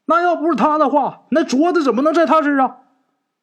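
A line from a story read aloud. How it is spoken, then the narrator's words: Flaring anger. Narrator (Chinese): 陈四这时候看见张有才又拿这镯子啊说事儿，一下这火就窜出来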